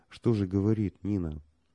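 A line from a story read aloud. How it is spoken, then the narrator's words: Muffled terse words. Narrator (Russian): Алексей Николаевич глухо проронил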